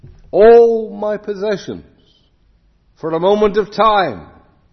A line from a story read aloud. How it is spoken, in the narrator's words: in the hour of her death, she shrieked out this